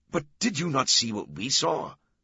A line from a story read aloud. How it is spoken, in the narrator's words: another challenged angrily